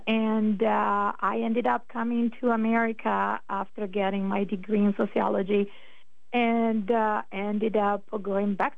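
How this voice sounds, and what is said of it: Northern Italian accent. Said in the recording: “a little bit of an accent... where is that accent from... originally I'm from Italy, was born and raised in the north of Italy”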